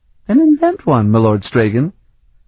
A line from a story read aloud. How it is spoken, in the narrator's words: she suggested sweetly